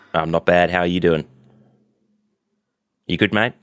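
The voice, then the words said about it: Weak put-on Australian accent. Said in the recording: “My accent changed to somewhat Australian. It's really unfortunate that I can't do a good Australian accent”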